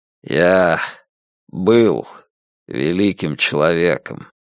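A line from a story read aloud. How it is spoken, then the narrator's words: Muffled, hollow voice. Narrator (Russian): глухо сказал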